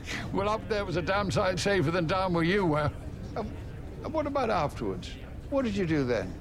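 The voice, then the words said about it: Very posh, cut-glass English accent. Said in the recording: “With your accent, you could cut glass.”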